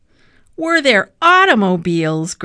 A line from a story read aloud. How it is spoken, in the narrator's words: Grandfather shouted